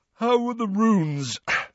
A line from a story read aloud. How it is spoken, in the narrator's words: said Ron, yawning